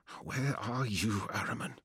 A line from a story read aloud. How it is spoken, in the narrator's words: whispered